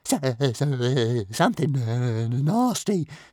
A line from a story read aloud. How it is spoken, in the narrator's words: stammered Toothless, on shaking wings